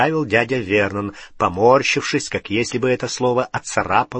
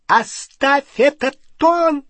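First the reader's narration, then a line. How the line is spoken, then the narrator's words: Shrill. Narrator (Russian): Визгливо начала тетя Петунья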